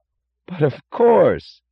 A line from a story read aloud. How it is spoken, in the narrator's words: cried Lawson with startled enthusiasm